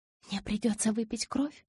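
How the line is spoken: Whisper. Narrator (Russian): прошептала Белла

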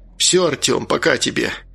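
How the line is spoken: Rough, angry. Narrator (Russian): отчего-то грубо произнес Валерий, злясь то ли на себя, то ли на растерянного клерка, то ли на всех сразу

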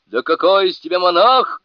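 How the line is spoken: Shouting. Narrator (Russian): крикнул он

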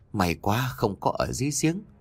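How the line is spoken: Relieved sigh. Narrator (Vietnamese): Người phụ nữ ... khẽ thở phào, miệng nói

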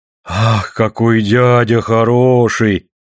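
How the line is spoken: Deep-voiced exclamation. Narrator (Russian): басом, как и мать, воскликнула она

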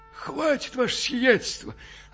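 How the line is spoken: Confused hoarse croak. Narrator (Russian): растерянно хрипнул Иона

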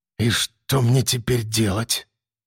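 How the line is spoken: Dejected, bewildered mutter. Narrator (Russian): Окончательно растерявшись, подавленно пробормотал

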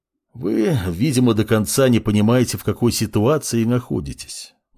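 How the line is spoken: Sighed. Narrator (Russian): вздохнул собеседник

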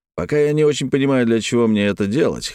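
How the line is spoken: Snorted. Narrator (Russian): хмыкнул

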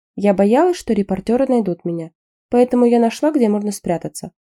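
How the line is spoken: Calm reply. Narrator (Russian): спокойно ответил Таннин

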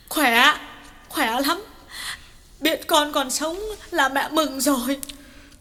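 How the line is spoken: Sobbing reply. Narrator (Vietnamese): Bà Lương sụt sùi mãi mới trả lời được

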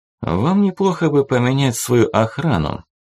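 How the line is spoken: Calm figure, foreign language. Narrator (Russian): спокойно проговорила черная фигура на интерлингве

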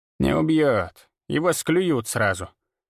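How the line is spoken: Old woman grumbling. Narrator (Russian): проворчала бабка

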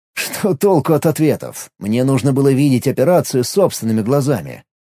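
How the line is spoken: Wry grunt. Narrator (Russian): хмыкнул Алекс

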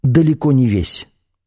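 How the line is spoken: Sighing. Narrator (Russian): шеф вздохнул

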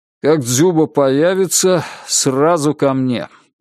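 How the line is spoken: Weary command. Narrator (Russian): устало скомандовал Сергей Кузьмич

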